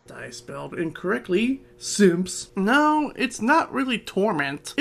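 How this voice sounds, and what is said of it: Put-on higher uncanny character voice. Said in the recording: “Just doing a different voice. Because ... voice is lower. ... an uncanny kind of hi ... I'm coming around on this voice.”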